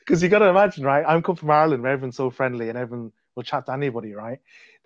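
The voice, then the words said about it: Irish accent. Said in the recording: “your Irish accent”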